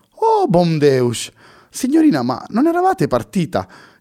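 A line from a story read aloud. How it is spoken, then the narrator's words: Incredulous exclamation. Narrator (Italian): esclamò incredula la signora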